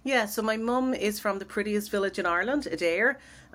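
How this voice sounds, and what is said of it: Dublin Irish accent. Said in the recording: “your accent, sounds like it's a Dublin accent-ish.”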